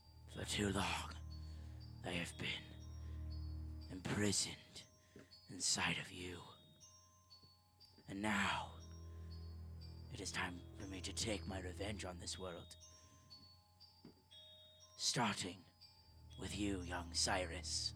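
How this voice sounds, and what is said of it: Very low raspy creature voice. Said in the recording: “in a very low, like, raspy voice”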